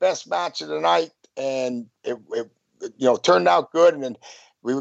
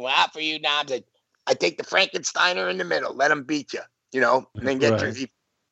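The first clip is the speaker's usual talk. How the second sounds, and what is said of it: Kevin Sullivan impression, Boston accent. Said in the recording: “Kevin Sullivan goes, you know, when his Boston accent”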